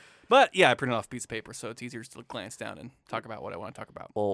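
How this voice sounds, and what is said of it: Usual voice. Nothing is said of it.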